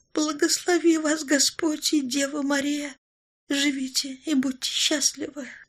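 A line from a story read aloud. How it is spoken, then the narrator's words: Hoarse, pitiful wheeze. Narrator (Russian): всхрипнула бедняжка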